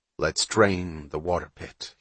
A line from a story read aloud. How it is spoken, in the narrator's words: he said